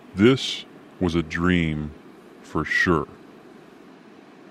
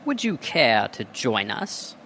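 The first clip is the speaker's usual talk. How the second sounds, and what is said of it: Put-on British accent. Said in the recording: “a not-so-surprising British accent”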